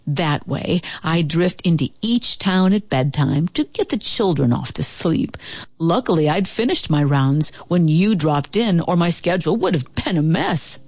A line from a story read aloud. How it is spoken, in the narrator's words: he said